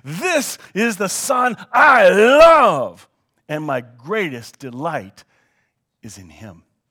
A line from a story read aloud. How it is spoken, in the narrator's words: the voice of the Father shouted from the sky, saying